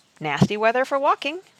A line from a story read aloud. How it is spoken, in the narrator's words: James said cheerfully